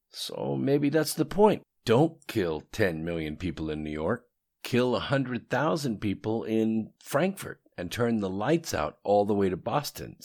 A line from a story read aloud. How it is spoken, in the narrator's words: said Peter